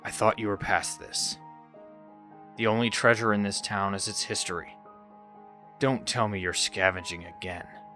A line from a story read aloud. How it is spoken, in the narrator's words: said calmly